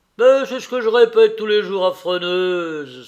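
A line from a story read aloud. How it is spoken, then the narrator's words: Playful joking exclamation. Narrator (French): s'écria le facétieux Binos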